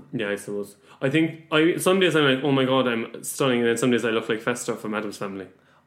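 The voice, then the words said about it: Irish accent. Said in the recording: “you have an Irish accent in London”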